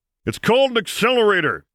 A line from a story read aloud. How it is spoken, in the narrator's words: Solo growled